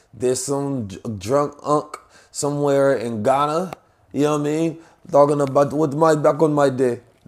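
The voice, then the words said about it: Poor imitation of Ghanaian accent. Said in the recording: “That's a terrible Ghanaian accent”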